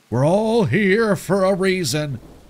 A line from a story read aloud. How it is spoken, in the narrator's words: bellow, spit flying from his lips